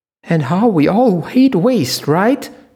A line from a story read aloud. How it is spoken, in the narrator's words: squealed the man called Leo